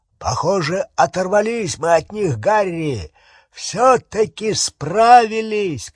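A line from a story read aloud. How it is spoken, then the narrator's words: Shouting. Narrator (Russian): крикнул Хагрид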